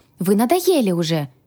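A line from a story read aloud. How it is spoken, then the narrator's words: Exclaim. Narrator (Russian): воскликнула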